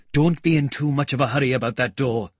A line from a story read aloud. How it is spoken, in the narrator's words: said the cabman anxiously